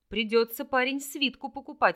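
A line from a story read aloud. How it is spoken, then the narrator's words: Snorting chuckle. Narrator (Russian): хмыкнул Орлик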